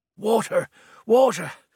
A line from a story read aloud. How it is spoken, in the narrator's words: said Badap, still panting